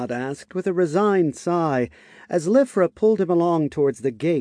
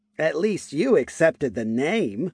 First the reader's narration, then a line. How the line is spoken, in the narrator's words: Lifra said with a hearty laugh